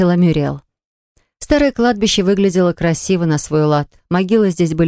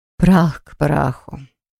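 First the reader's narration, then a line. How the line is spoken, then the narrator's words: Quiet. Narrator (Russian): тихо сказала женщина-викарь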